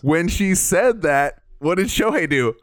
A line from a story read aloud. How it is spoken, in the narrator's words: She laughs